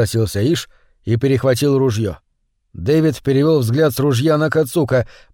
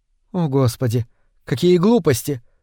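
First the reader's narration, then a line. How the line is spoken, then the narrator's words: Sighing. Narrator (Russian): вздохнула Цканай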